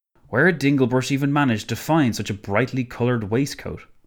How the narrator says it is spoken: Emmons sighed again

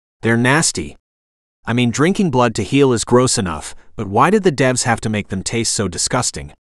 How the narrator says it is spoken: The assassin grunted

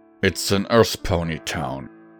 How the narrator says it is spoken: said bluntly through gritted teeth

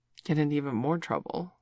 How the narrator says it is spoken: Sandy muttered

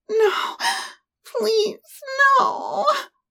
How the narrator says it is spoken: she whined

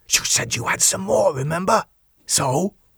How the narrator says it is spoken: Jake gave him a sour look and whispered sharply

